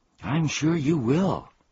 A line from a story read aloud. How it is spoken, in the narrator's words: gasped Milo